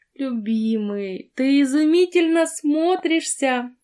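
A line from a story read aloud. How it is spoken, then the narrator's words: Ecstatic squealing woman. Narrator (Russian): восторженно взвизгнула женщина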